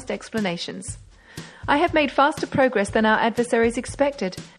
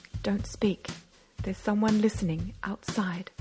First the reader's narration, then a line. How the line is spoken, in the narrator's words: Beautrelet whispered